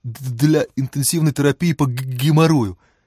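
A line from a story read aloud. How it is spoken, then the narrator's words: Slight stutter. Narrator (Russian): чуть заикаясь объяснил Саша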